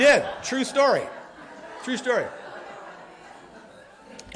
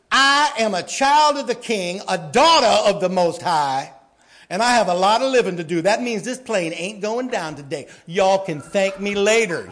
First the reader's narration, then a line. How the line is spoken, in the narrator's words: she said